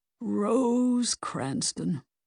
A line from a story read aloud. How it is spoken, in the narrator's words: Victor said wistfully